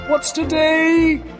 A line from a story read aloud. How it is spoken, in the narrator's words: cried Scrooge, calling downward